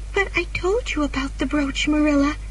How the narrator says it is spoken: cried Anne

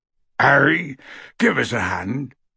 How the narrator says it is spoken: called Hagrid hoarsely from the door, in which he was stuck again

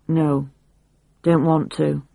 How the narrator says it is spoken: Mervyn said flatly

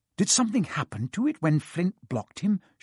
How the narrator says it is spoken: Seamus whispered

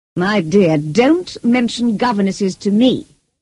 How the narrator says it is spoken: cried Lady Ingram

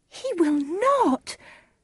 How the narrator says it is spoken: cried Juliet

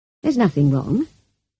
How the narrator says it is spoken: answered calmly

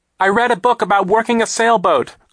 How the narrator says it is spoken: Klaus shouted over the noise of the hurricane

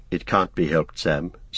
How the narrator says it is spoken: said Frodo sadly

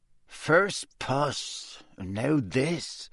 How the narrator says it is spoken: muttered Seamus

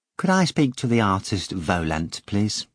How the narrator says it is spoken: Veronika asked sweetly

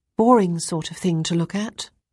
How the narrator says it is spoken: she said calmly

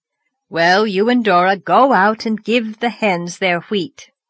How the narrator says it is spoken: said Marilla

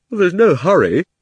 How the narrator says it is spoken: said Diggory, with a huge yawn

